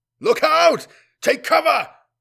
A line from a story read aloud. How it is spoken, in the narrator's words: shouted Devane